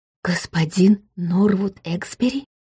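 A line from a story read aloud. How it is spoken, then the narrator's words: Incredulous whisper. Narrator (Russian): неверяще прошептал он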